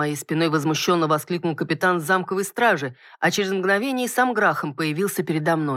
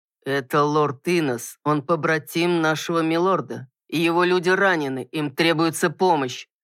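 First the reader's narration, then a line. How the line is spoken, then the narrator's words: Through gritted teeth, contemptuous. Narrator (Russian): Сквозь зубы процедил капитан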